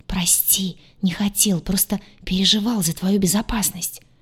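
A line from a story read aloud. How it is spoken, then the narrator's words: Whispered reply. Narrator (Russian): также шепотом ответил Крейг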